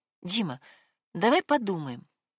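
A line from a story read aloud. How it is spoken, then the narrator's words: Timid. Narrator (Russian): робко произнесла Вероника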